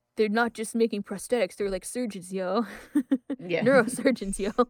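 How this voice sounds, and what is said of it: Teenage boy character voice. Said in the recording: “my teenage Ed impression”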